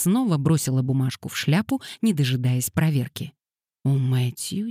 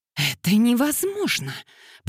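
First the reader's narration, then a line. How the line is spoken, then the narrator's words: Hiss. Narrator (Russian): прошипела мисс Лейтон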